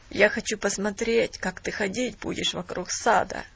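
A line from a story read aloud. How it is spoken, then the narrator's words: Grumbling. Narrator (Russian): проворчал Бен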